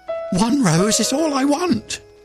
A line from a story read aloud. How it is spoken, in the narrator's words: cried the nightingale